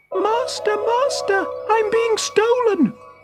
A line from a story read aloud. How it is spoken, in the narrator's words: suddenly, the harp cried out